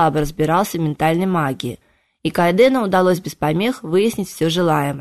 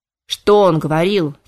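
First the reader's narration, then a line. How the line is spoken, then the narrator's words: Angry interruption. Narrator (Russian): сердито перебил Кайден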